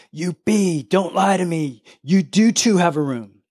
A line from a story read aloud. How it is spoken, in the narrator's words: shouting